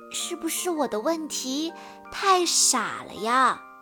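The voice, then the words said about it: Speaking quietly, softly. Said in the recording (Chinese): “小声地说”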